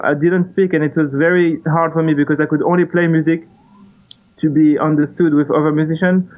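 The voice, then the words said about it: Thick non-native English accent. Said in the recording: “when I arrived to America, I didn't speak any English ... right now you can hear my thick accent”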